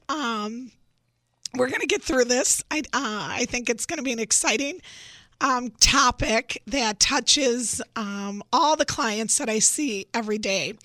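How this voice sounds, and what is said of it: Congested, sick-sounding voice. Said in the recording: “I have a cold.”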